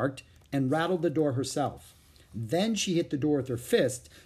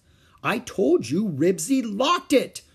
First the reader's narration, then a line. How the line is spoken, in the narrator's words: Ramona shouted